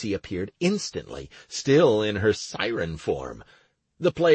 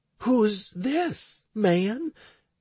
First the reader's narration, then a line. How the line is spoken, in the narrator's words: Anastaria exclaimed with astonishment